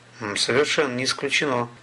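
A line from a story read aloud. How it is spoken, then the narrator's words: Calm. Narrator (Russian): спокойно сказал Столяров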